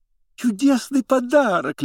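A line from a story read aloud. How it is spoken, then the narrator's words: Babbled by female doctors. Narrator (Russian): лепетали врачихи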